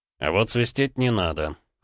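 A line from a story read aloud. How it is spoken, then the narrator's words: Cold, curt. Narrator (Russian): холодно отрезал Грег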